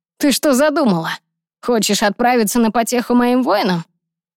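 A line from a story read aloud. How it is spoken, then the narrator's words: Menacing growl. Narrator (Russian): продолжал угрожающе рычать Ронан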